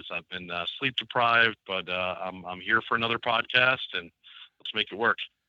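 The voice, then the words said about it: Hoarse, strained voice. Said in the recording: “been losing my voice for the past couple of days”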